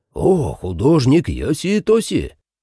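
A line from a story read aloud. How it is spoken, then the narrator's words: Surprised exclamation. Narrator (Russian): воскликнул Оногава, впервые узнав это имя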